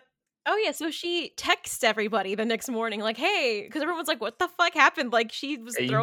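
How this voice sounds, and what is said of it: Usual voice. Nothing is said of it.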